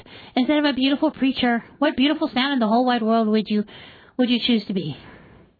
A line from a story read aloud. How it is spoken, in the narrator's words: I gasped